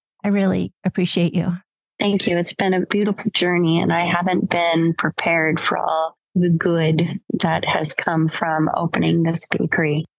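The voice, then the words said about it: Choked up, emotional voice. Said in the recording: “I'm all choked up.”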